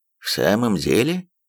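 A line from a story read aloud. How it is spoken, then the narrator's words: Calm reply. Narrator (Russian): спокойно отозвался Холмс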